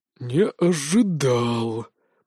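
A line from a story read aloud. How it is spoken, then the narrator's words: Growl. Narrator (Russian): прорычал он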